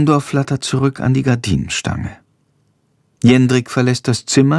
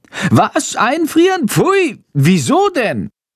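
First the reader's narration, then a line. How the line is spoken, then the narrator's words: Horrified shriek. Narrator (German): kreischt Chandor entsetzt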